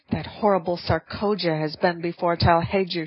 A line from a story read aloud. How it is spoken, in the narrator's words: she cried